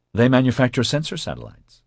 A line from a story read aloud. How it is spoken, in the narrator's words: Oscar said quickly